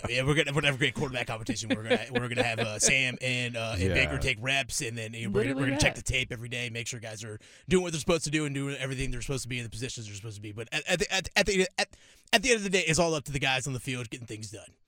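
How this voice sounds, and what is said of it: Matt Rhule impression. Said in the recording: “That's a pretty good Matt Rhule impression there”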